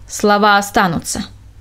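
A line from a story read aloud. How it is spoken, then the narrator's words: Sharp interruption. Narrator (Russian): резко перебил он ее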